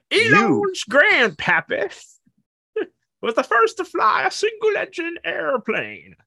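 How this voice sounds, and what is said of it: Old grandpappy character voice. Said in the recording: “you didn't do Elon's grandfather in a grandpappy voice ... That's pretty good.”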